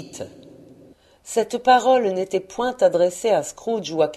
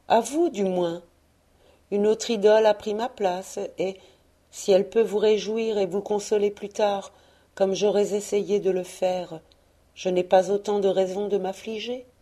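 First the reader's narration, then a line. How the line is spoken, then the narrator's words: Gentle. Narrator (French): disait-elle doucement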